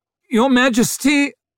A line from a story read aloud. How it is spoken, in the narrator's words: he cried over the noise